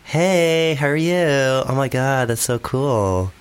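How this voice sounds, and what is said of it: Californian Valley Girl accent. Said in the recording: “Valley Girl ... You're actually quite good at accents.”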